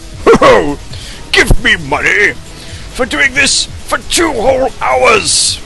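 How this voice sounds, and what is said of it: Santa Claus character voice. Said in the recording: “my what sounds like Santa accent ... It hurts my throat”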